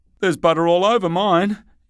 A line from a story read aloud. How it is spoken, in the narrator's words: exclaimed Wolf in dismay